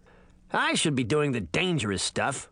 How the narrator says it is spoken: he grumbled

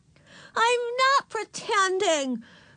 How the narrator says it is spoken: screamed, clinging to the doorknob

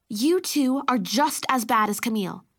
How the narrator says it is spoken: said Mom

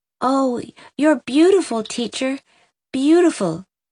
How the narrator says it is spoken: gasped Rilla adoringly

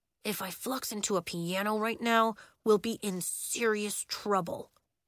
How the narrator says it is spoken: Bax muttered

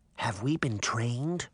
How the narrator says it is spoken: whispered

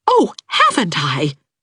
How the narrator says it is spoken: cried Anne

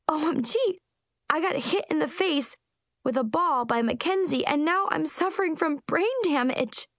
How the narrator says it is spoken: I shrieked hysterically

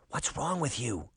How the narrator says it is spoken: Sabrina whispered into his ear

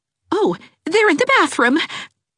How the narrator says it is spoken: exclaimed Mrs

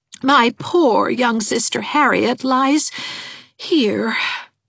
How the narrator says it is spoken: sighed Miss Valentine

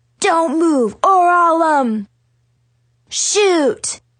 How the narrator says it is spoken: she yelled

